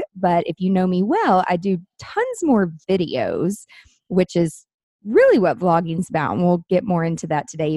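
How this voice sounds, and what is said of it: Southern American accent. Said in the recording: “apparently I have a Southern accent and people can't understand when I'm saying vlog versus blog”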